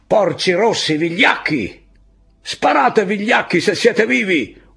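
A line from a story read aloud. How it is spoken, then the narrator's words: Yelling. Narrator (Italian): urlava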